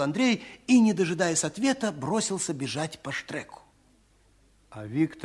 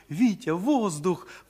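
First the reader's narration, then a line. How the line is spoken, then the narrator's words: Sudden cry. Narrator (Russian): вскрикнула Даша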